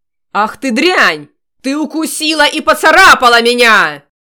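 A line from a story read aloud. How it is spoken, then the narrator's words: Furious roar. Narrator (Russian): В ярости взревел он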